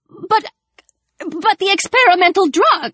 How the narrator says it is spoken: her aunt spluttered

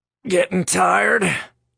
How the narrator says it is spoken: Roy croaked from his prone position on the ground

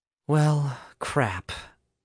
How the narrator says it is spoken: Alice said weakly

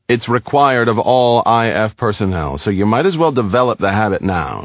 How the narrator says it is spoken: said Dymac

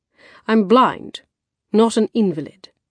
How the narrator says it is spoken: he snapped

